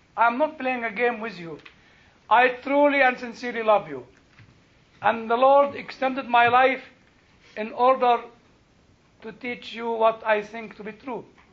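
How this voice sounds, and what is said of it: Egyptian-accented English. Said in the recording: “my horrible English Egyptian accent”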